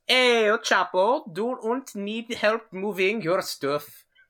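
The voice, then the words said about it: Mock German-Spanish accent, rolled R's. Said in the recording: “a German guy asking ... The German and Spanish accent, you just roll your R's really hard ... But also angrily and loud”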